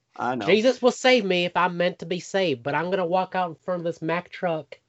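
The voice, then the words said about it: Convincing put-on accent. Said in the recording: “Your accent is so dead on ... Your accent on that is so spot on”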